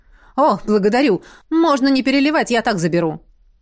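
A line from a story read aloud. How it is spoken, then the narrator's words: Exclaiming. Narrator (Russian): воскликнул Рейнар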